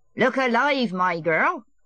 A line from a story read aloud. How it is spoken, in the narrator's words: the old man shouted after her merrily